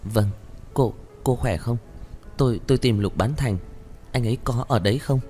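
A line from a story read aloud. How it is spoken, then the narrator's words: Stammering. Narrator (Vietnamese): Hứa Ôn Noãn lắp bắp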